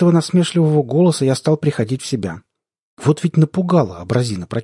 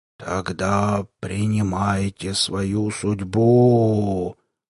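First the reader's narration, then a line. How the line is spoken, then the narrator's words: Monster's dull rumble. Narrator (Russian): глухо рокотнуло чудовище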